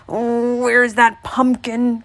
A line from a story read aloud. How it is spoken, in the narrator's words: croaked the old man